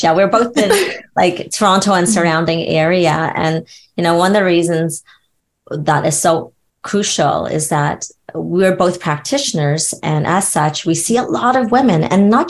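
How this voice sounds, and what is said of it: Canadian accent. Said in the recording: “Am I hearing a Canadian accent? ... Oh, yes, yes ... we are Canadian.”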